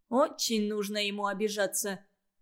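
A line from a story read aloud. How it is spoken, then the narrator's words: Grumbling. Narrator (Russian): проворчал отец Олега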